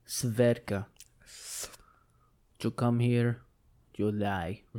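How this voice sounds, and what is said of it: Poor attempt at Russian accent. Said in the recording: “That was nothing like a Russian accent. ... Nothing like a ravishing Russian.”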